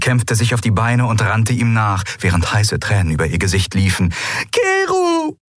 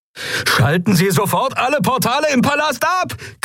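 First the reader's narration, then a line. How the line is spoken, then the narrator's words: Shrieking over sirens. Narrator (German): kreischte Galet über die Sirenen hinweg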